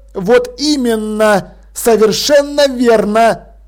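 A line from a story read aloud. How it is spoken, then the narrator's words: Exclamation. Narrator (Russian): воскликнул молодикт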